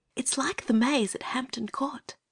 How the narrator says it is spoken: whispered Anthea

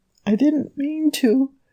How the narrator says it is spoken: he kept whimpering

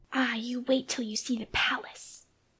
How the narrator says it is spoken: Jane whispered back

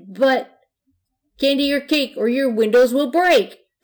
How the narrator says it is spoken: yelled

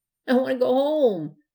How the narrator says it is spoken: said the smallest ghost in a trembling voice

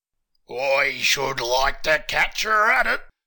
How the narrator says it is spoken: growled the captain

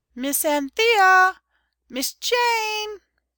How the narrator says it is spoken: Nurse's voice, very much higher and squeaky and more excited than usual

